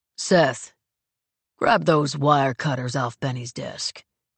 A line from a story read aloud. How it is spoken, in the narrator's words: Ryan says in a deceptively calm voice